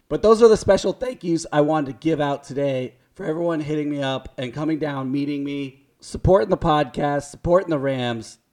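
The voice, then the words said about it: Hoarse, strained, nearly lost voice. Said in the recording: “As you can tell, my voice is gone with a capital G ... obviously yelling and going crazy”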